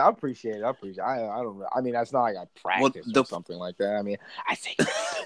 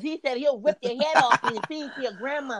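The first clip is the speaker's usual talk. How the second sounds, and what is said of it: Mike Tyson impression with lisp. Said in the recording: “Mike Tyson just talked with a lip... That's pretty good. That's pretty impersonation. Good.”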